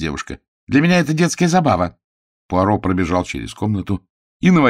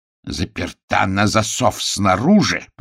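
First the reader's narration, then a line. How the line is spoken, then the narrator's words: Growling. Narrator (Russian): прорычал он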